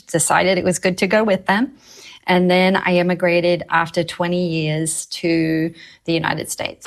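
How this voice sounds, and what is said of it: British-Australian accent. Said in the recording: “People heard your accent. ... I am from Britain, but I emigrated to Australia with my parents at a very young age”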